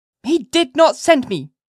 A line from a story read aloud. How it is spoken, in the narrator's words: cried she positively